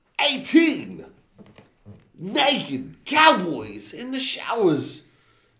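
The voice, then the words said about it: Imitates another person's voice. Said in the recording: “my best Christopher Walken accent”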